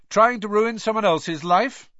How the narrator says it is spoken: said Harry, loudly

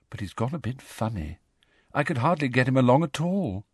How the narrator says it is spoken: said Luna sadly

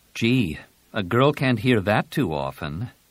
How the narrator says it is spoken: Jaina said dryly

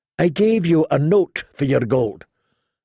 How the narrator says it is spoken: Lord Beric said calmly

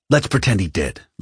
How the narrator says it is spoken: Lorica snapped

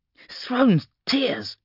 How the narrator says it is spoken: grunted Ninkara

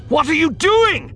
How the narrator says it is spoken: Dryden screamed, panic and anger

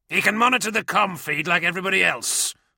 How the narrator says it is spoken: growled Delarax

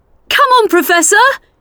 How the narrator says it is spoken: she shouted

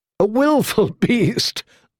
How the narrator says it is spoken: laughed a handsome young man

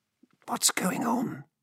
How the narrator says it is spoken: she hissed to Halji

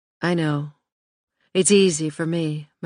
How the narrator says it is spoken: Michelle replied gently

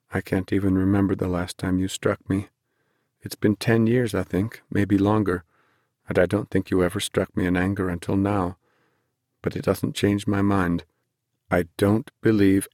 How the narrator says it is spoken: Ben said quietly

